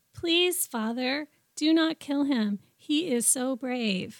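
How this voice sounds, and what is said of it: Childlike, flat line-reading voice. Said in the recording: “That was a little flat. ... in my second grade voice.”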